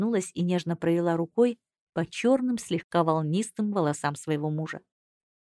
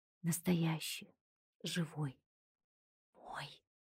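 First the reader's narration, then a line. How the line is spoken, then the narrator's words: Whisper. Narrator (Russian): прошептала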